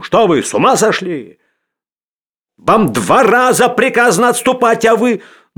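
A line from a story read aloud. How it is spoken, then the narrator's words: Breathless shouting. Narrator (Russian): Он запыхавшимся голосом кричал ему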